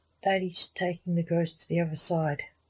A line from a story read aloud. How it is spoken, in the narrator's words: said Lance